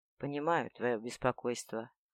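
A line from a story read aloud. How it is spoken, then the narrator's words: Soft, soothing. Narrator (Russian): произнес он мягко, стремясь успокоить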